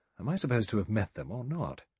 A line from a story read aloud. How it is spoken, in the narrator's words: He said quickly